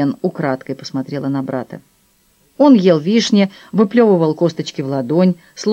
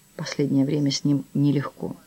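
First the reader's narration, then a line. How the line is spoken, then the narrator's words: Whisper. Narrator (Russian): Даниэль прошептал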